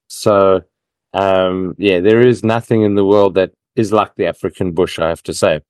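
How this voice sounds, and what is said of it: African-influenced English accent. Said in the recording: “You may have gathered from my accent that I lived in Africa for half my life.”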